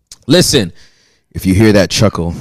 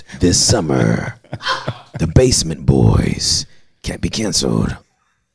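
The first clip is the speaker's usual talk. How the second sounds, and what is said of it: Movie trailer announcer voice. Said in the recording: “in a movie voice”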